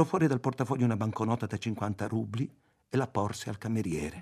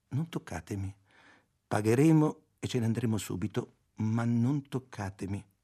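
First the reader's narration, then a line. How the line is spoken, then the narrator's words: Calm, gentle voice. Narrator (Italian): con voce tranquilla e dolce disse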